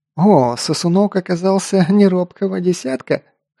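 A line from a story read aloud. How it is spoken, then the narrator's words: Big man's chuckle. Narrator (Russian): хохотнул здоровяк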